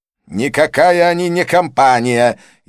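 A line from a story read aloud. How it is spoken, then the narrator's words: Furious shout. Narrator (Russian): яростно выкрикнул Санджай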